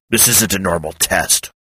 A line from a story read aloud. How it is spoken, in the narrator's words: Hawk said sharply